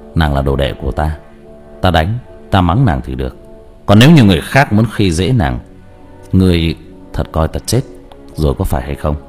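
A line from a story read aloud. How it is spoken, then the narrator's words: Cold. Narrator (Vietnamese): Diệp Thiếu Dương lạnh lùng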